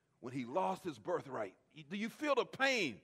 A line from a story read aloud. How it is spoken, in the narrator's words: he cried out with a bitter pain